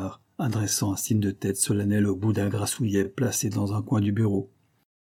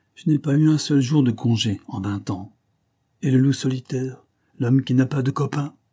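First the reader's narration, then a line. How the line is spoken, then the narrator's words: Gruff. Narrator (French): il ajouta d'un ton bourru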